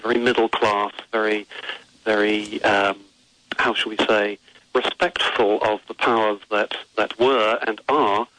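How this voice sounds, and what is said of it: English accent. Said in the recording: “you can probably hear it in my accent ... is my English upbringing”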